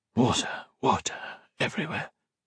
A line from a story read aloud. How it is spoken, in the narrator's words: he whispered hoarsely